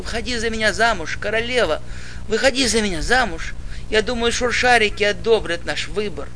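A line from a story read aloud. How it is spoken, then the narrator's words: Moaning. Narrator (Russian): Снова простонал я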